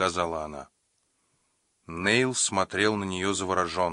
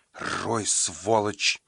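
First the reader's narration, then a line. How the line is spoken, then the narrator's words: Hiss. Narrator (Russian): прошипела Сандра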